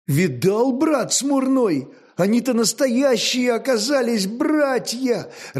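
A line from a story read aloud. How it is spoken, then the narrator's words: Joyful exclamation. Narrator (Russian): радостно воскликнул Хорь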